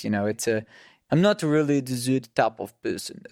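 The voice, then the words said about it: Staccato put-on South African accent. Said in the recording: “the South African accent is one of my favorites ... It's quite a staccato accent”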